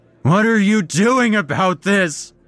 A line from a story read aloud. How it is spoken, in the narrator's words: shouted, nearly in tears